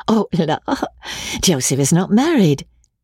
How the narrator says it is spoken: said Amelia, laughing again

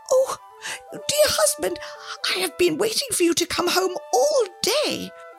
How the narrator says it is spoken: the old woman cried out

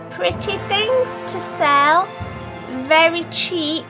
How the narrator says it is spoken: cried

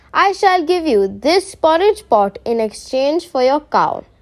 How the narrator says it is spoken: said

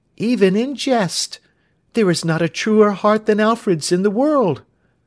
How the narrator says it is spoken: cried her sister

